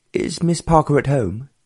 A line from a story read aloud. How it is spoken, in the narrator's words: asked the Earl anxiously